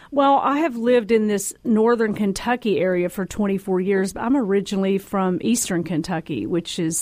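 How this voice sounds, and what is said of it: Down-home Kentucky country accent. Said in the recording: “I love your accent. ... Down home.”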